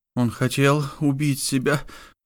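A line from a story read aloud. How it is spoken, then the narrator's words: Sobbing. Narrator (Russian): всхлипнула Лала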